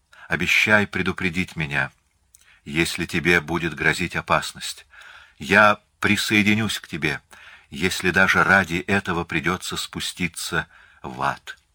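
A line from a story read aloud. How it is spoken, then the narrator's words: Tender. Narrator (Russian): Она проговорила нежно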